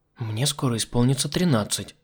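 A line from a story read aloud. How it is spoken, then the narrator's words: Girl whispering. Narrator (Russian): Прошептала маленькая актриса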